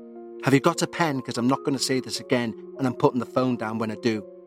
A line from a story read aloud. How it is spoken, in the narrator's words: again whispering